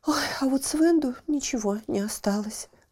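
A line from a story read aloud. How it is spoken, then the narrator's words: Sighing mother. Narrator (Russian): вздохнула мать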